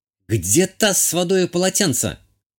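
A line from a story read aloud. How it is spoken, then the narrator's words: Shouted. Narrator (Russian): прокричала Азалия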